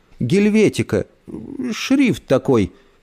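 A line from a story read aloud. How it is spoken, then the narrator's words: Frightened, strained. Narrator (Russian): испуганно выдавил из себя папа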